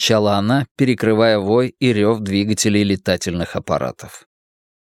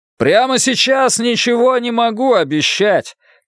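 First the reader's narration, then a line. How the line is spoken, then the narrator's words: Shouted reply. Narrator (Russian): крикнул я в ответ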